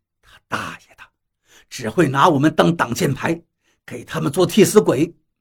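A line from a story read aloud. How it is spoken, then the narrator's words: Low muttered curse. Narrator (Chinese): 张广川低声骂了一句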